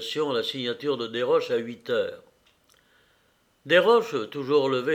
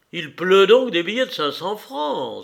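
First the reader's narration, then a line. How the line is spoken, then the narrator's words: Exclaiming. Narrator (French): s'écria Desroches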